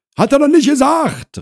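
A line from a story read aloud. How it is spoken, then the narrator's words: Woman calling out. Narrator (German): rief Frau Krause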